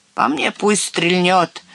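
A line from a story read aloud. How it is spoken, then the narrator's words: Angry grumble. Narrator (Russian): сердито проворчал старшина стрелков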